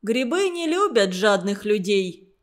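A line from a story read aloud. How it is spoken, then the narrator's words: Very serious and stern. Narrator (Russian): очень серьезно и строго говорил он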